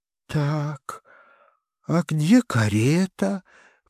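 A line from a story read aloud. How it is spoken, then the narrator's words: Whisper. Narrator (Russian): прошептала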